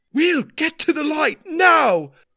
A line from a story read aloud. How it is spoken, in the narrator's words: Ma screamed at me, her eyes burning with tears of fright